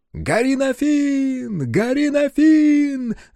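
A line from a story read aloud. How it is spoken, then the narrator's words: Crowd of warriors shouting. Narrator (Russian): закричали воины Льюку на городах-кораблях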